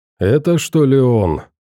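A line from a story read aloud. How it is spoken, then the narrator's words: Displeased man asking. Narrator (Russian): недовольным голосом поинтересовался мужик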